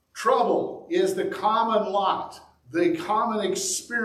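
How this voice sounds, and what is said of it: Usual voice. Nothing is said of it.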